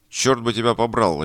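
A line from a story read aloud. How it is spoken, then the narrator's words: Barked angrily. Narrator (Russian): рявкнул голос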